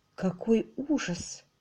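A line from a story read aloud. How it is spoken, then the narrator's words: Quiet speech. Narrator (Russian): тихо сказала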